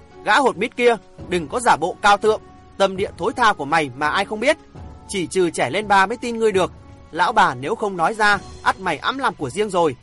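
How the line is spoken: Cold, loud shout. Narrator (Vietnamese): lạnh lùng thét lớn

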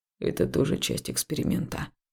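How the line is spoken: Muttered. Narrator (Russian): пробормотал жнец

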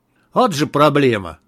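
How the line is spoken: Snorting remark. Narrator (Russian): хмыкнул Малахов

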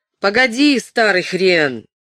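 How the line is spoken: Shouted. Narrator (Russian): крикнул он

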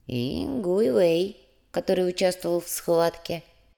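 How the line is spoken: Soft. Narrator (Russian): мягко закончил Ляо

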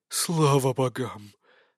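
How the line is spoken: Sudden relieved exhale. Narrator (Russian): внезапно выдохнул Евграф

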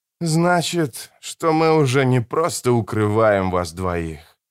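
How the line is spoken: Sighing. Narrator (Russian): вздохнул Родриго

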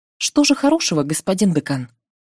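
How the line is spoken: Plain. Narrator (Russian): Только и спросила

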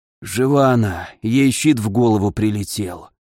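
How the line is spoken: Hoarse. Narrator (Russian): послышался хриплый голос Ламара

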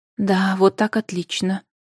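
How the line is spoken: Witch whispering. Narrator (Russian): шепотом проговорила ведьма

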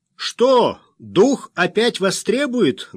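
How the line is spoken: Loud question. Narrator (Russian): громко поинтересовался

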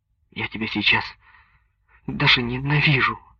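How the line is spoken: Tearful. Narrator (Russian): сквозь слезы произнесла Соня

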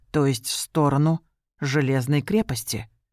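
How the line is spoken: Even, level repetition. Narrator (Russian): ровным голосом повторила Рен

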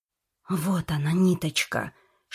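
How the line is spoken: Whispered in ear. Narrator (Russian): шепнула она на ухо Журавлеву

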